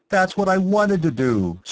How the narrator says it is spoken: Stranor Sleth exclaimed

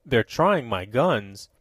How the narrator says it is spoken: observed Tom grimly

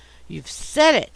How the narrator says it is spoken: I exclaimed

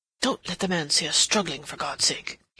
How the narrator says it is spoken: he murmured

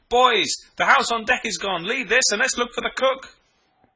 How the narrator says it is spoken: I shouted

